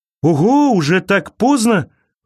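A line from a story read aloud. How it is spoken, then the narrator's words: Exclaiming. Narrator (Russian): воскликнул он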